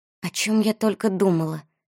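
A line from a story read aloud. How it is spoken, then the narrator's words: Barely audible mutter. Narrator (Russian): чуть слышно пробормотала Анна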